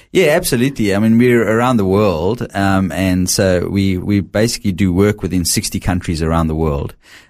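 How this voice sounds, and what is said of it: South African accent. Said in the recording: “we can tell from the accent that you're not from around here ... very definitely from South Africa. So I can't hide that.”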